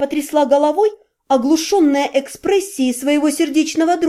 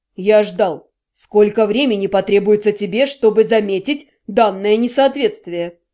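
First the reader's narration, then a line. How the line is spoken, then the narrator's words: Calm reply. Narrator (Russian): Спокойно ответил Вашарий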